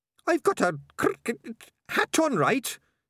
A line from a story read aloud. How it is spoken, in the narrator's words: snapped Sardines